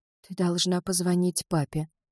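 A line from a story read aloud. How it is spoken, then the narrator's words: Young woman whispering. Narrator (Russian): прошептала девушка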